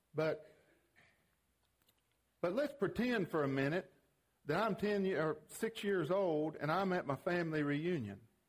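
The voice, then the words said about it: East Tennessee accent. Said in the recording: “There's a difference between Middle Tennessee accent and East Tennessee accent, in case you didn't know. Well, and I was the East.”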